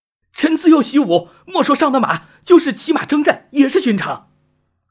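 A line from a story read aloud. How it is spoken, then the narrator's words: Angry, indignant. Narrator (Chinese): 被人如此藐视，虽然对方是皇帝，崇吉仍是怒道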